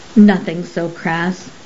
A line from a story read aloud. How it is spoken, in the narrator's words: answered Professor Mungoose